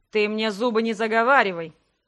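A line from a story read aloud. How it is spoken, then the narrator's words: Growling man. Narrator (Russian): рыкнул мужчина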